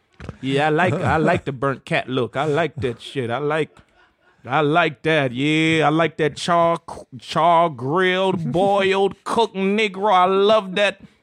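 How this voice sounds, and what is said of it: Put-on accent, not done well. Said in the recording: “I'm not doing the accent any justice ... Sounded like Grandma Clump”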